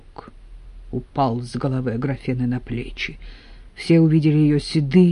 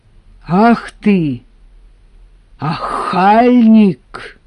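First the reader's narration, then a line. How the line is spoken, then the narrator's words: Loud repetition. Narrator (Russian): громко повторила Аграфена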